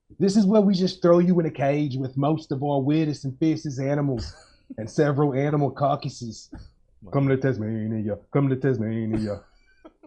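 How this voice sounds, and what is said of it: Put-on Australian accent. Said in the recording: “Top-notch accent work ... I can't do a better Australian ... I don't even know if it was Australian I was doing”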